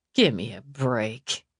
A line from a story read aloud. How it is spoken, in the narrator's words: Eve muttered